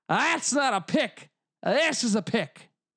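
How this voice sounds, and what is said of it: Bad put-on Australian accent. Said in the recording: “Terrible Australian accent. I'm still learning this thing.”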